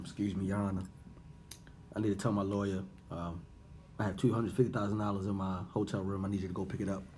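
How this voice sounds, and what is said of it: Whispered speech. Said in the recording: “Why you whisper that shit?”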